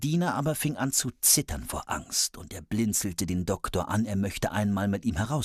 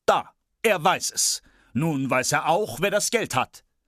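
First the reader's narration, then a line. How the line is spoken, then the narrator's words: Called out. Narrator (German): rief er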